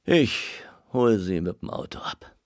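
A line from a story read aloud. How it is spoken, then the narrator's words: Tired. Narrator (German): sagte Muschler müde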